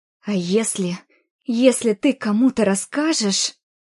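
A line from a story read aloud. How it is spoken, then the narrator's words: Hissing, swallowing, stammering. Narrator (Russian): прошипела Оля, переглатывая и запинаясь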